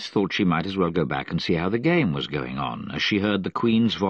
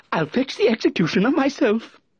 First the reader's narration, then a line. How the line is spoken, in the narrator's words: said the King, eagerly